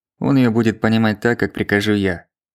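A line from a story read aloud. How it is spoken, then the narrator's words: Dry. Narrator (Russian): сухо сказал Назаров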